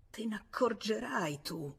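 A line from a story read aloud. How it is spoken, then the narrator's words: Murmured. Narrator (Italian): se n'andò mormorando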